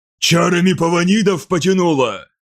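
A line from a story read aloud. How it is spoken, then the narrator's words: Shouted. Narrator (Russian): крикнул Ткар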